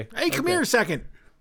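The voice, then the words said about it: Yelling. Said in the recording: “I'm yelling it.”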